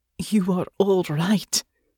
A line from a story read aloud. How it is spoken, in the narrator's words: Natasha said, her voice thick with emotion